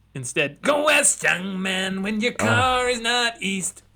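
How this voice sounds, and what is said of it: Nasal imitation of another person's voice. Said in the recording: “a pretty good mid-80s Michael W. Smith impersonation ... You just got to pinch your nose.”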